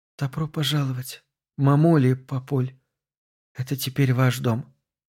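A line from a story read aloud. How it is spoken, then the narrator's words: Barely audible whisper. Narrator (Russian): она еле слышно прошептала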